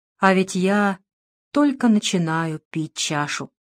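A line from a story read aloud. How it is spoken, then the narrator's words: Quiet, soft. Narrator (Russian): тихо промолвил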